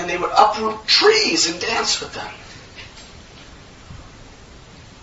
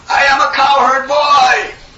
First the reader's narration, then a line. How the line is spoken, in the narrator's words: They were roaring